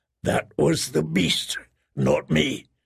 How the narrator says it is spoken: he said in a hoarse whisper

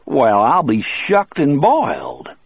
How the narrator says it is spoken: Bill exclaimed

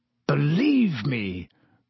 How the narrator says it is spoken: croaked Black

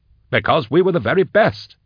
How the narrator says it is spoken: Endor exclaimed

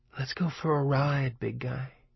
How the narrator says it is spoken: Christine seemed to whisper in the hot summer silence of LeBay's garage

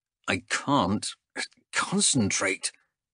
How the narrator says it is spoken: hissed Callis

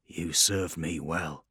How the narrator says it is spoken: he said quietly

